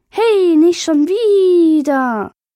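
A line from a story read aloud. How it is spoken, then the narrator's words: Squeaky voice. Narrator (German): fiepte es mit Piepses Stimme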